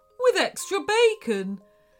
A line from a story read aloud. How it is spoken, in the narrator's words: whined Lincoln